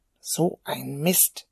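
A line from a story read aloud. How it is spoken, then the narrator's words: Mutter. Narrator (German): murmelte er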